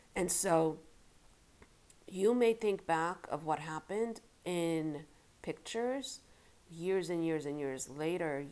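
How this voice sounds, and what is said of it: Congested voice from a cold. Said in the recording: “I have a cold,”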